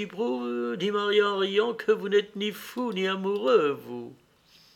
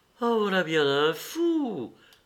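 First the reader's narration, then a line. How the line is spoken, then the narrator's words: Exclamation. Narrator (French): s'écria Maria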